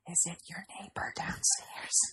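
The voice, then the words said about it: Whispering. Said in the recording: “you don't have to whisper. That's okay. ... You can speak in full voice.”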